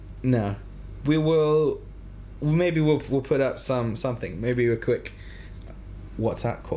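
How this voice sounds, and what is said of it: Usual voice. Nothing is said of it.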